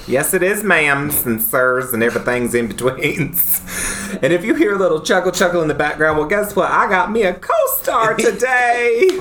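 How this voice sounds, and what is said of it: Put-on Southern twang. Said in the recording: “Today I'm going all Southern. ... We're just going to talk in a Southern twang.”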